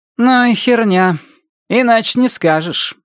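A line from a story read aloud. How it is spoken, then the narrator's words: Sighing. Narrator (Russian): вздохнула она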